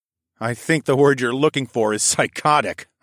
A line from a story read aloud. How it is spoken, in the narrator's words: I chuckled